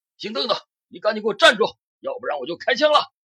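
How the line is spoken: Sudden loud shout. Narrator (Chinese): 罗文稍一犹豫之后，突然大喊一声

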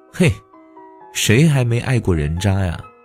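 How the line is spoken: Laughing. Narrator (Chinese): 小桃笑着说

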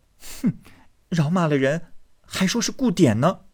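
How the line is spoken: Laughing. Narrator (Chinese): 黛玉笑道

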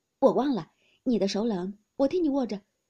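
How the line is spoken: Laughing. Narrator (Chinese): 宝玉听了，笑道

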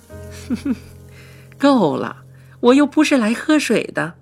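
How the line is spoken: Laughing. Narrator (Chinese): 她看着我笑，说道

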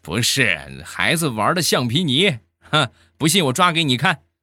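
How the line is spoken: Calm, faint smile. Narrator (Chinese): 我当时淡淡一笑，我说

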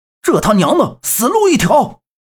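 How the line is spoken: Loud roar. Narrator (Chinese): 他这一声大吼

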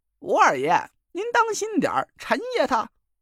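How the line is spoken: Shouting. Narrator (Chinese): 蒋亮在一边叫道

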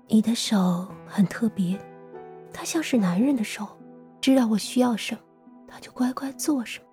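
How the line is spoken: Smug whisper. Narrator (Chinese): 金贤淑得意地凑到他耳边轻声道

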